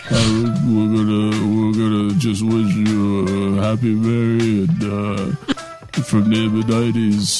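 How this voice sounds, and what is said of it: Bad Rocky impression, punch-drunk voice. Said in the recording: “really bad Rocky impression ... I'm just gonna talk like I've been hit a few times.”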